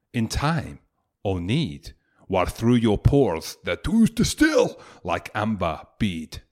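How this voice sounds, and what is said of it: Put-on accent reciting verse. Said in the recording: “You're sounding pissed, pal ... A nice accent as well that you put on there because you're English.”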